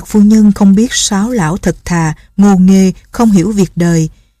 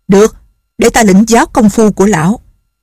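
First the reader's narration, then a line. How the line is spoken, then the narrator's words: Impatient shout. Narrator (Vietnamese): Không nhẫn nại được nữa, bà quát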